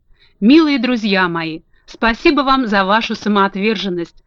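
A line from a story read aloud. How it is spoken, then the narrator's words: Tearful exclamation. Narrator (Russian): со слезами на глазах воскликнула Элли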